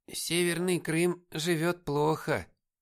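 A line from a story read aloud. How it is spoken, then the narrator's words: Heavy sigh, old woman. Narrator (Russian): тяжело вздохнула бабушка Маша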